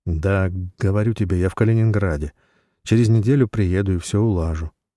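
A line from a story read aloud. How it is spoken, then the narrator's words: Calm, slightly firmer voice. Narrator (Russian): произнес Жора спокойно, хотя его голос стал чуть более твердым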